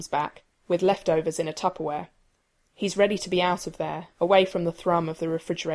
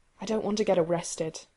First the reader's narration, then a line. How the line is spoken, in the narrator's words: Rodney murmurs